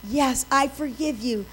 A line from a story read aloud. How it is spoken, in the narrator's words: Lisa says quietly